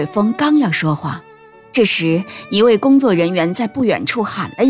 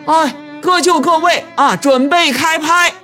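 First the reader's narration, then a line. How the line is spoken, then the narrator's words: Shouting. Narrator (Chinese): 芮伟峰喊了一声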